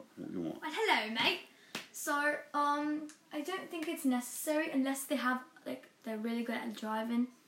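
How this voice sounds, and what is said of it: Put-on British accent. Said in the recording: “Shall I still talk in my British accent? ... You can do whatever accent you want.”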